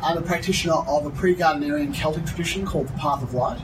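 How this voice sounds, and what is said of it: Unusual Australian accent, British-sounding. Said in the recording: “I'm originally from Australia. My accent isn't classically Australian ... I was educated by British nuns, so I learned Her Majesty's English ... So my accent is a little unusual.”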